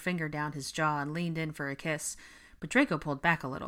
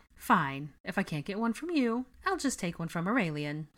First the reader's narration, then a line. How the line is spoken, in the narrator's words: sniffed loftily, struggling to suppress a laugh